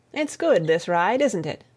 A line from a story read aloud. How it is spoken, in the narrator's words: Tom said presently